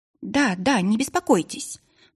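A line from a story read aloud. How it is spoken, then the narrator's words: Hasty, hiding agitation. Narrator (Russian): поспешила заверить стараясь не показать волнения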